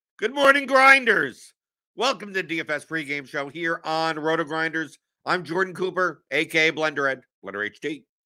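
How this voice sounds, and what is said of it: Hoarse, strained voice. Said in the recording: “Oh, I lost my voice.”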